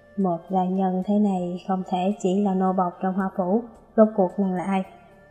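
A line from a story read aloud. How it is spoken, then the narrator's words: Serious lowered voice. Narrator (Vietnamese): sắc mặt đang vui vẻ của chàng bỗng chuyển sang nghiêm túc, hạ giọng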